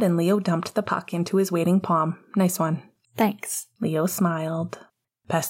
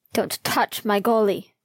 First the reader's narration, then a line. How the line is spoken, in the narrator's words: Logan snarled